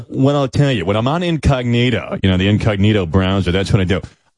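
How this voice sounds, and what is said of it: Fake Howard Stern voice. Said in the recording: “fake Howard Stern ... Why are you doing that voice?”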